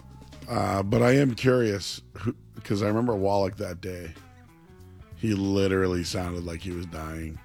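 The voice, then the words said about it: Hoarse, nearly lost voice. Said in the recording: “I'm almost wondering who sounds worse, me or him ... I'm not dying. I lost my voice. ... Just the moneymaker, just it gave out.”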